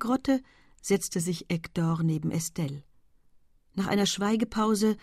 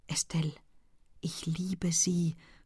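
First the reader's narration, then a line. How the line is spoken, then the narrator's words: Breathless whisper. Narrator (German): flüsterte in einem Atemzug Hector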